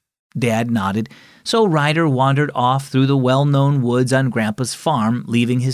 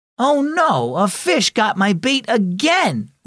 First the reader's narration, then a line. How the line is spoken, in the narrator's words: Ryder exclaimed